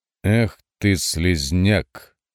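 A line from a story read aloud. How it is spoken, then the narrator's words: Even, coldly contemptuous voice. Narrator (Russian): ровным голосом произнес гроссмейстер, ибо презрение остудило его гнев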